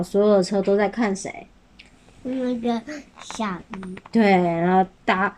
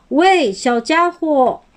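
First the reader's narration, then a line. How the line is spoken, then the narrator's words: Loud call. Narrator (Chinese): 有一辆车正大声的喊着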